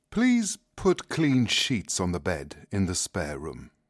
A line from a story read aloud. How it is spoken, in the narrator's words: said calmly